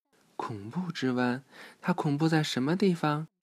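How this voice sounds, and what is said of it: Quiet, frightened small voice. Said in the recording (Chinese): “吓得蜷缩起身体，小声地问”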